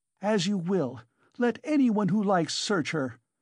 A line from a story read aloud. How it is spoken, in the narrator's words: cried Katerina Ivanovna